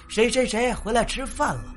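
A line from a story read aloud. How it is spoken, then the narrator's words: Calling out a name. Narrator (Chinese): 叫他的名字，说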